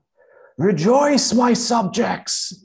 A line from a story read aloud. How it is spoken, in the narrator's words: thundered